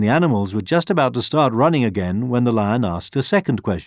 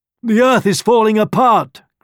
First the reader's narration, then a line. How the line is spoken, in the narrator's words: cried a rhino